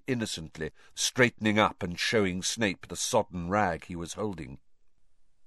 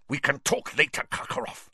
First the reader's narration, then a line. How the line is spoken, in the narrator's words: spat Snape